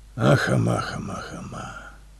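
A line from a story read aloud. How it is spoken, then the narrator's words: Soft, mellow mumbling. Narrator (Russian): Бормотал размягченно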